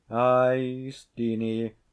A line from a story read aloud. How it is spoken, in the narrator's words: quoth the laird, sighing deeply